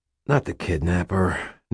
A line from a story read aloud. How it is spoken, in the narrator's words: Nick sighed